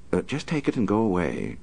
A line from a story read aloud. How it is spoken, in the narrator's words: she said calmly